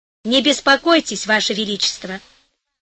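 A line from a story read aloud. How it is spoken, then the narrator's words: Calm. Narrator (Russian): сказал спокойно Гонелло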